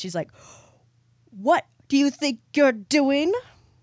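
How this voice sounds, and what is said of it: Scolding mom character voice. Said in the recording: “mom voice”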